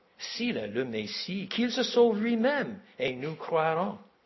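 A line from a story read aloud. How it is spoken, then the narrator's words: Mockers crying out. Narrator (French): Les moqueurs s'écrient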